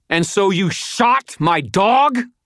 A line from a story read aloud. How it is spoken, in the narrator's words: screamed